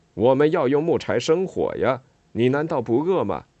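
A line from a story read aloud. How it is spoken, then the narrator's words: Calling out from behind. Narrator (Chinese): 施拉迪格在背后喊他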